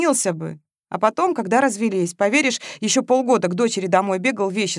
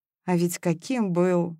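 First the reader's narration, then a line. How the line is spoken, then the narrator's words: Sighing. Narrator (Russian): вздохнула Маша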